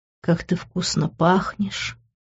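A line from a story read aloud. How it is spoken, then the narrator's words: Sultry whisper. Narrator (Russian): Шепот, полный сексуального подтекста, прозвучал в мои волосы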